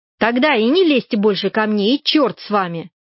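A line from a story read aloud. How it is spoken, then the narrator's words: Angry. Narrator (Russian): сказала я сердито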